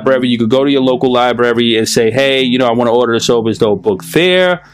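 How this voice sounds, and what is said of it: New York accent. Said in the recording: “I say library, like berries ... just like I say earth with an F ... your little broken New York accent”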